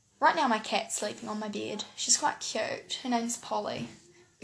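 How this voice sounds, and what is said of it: New Zealand accent. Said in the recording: “I live in New Zealand ... you might find my accent really annoying ... my accent”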